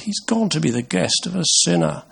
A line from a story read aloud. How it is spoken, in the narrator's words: all the people began to mutter